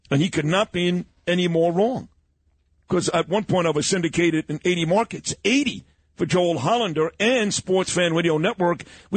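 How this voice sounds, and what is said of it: Thick Brooklyn accent. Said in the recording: “This guy's got a thick Brooklyn accent.”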